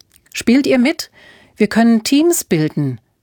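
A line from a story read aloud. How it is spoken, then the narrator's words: Called out. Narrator (German): rief Alfred ihnen zu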